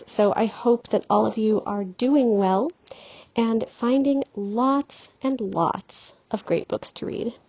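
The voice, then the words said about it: Odd-sounding, unwell speaking voice. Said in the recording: “any kind of oddness you may hear in my speaking voice. I have had a really bad allergy flare-up, and so probably sound about as good as I feel at the moment ... Benadryl-induced fog”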